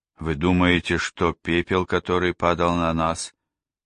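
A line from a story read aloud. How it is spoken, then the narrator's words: Hoarse unfriendly question. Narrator (Russian): хриплым и недружелюбным голосом спросила миссис Рэпка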